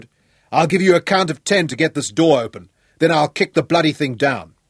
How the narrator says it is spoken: he bellowed

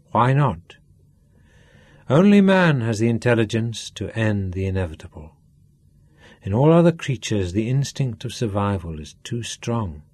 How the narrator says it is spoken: Sean answered him

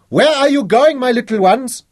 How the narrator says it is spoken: Old Mama Inginga, fat and silver-haired, shouted after them

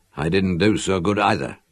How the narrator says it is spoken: I replied thickly

